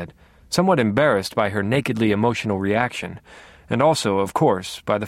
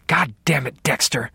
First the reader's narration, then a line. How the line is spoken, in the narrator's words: she hissed